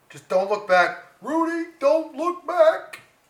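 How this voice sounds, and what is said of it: Bill Cosby impression. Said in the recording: “I can't even do a Cosby impression.”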